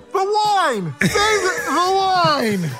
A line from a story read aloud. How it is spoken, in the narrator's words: our table was yelling